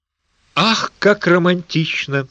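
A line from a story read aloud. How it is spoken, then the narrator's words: Sighing. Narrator (Russian): вздохнула Примула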